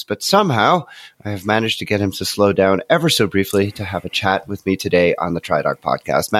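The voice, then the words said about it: Slightly nasal, congested voice. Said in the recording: “I'm recording this on the tail end of a terrible cold. So if I sound a little nasally”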